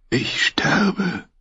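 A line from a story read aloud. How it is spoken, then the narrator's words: Whisper. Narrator (German): wisperte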